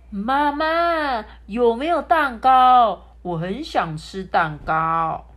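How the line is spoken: Deliberately loud. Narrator (Chinese): 嘟嘟故意朝向厨房，大声的说

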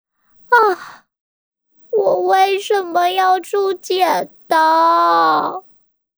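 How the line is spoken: Old man's deep sigh. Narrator (Chinese): 爷爷深深叹了一口气

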